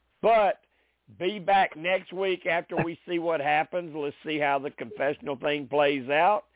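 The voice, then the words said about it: Hoarse, congested voice. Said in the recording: “the allergies and the sinus stuff comes in ... Your bedroom voice? ... to me I sound hoarse”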